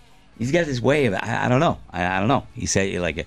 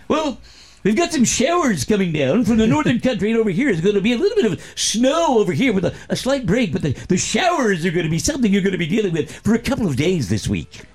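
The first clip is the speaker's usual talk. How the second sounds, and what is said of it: Imitates a TV weatherman's voice. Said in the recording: “that was a good impression ... Here's the thing about weathermen”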